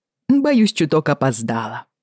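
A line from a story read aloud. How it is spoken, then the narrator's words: Cheerful. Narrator (Russian): весело заговорил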